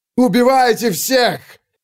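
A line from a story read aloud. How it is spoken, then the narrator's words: Loud scream. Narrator (Russian): завопил Гвоздь, поскольку больше не было нужды скрываться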